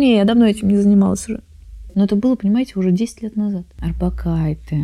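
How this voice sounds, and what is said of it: Usual voice. Nothing is said of it.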